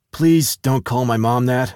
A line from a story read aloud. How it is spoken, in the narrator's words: I sighed